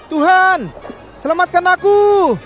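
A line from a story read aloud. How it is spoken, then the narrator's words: Exclaiming. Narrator (Indonesian): serunya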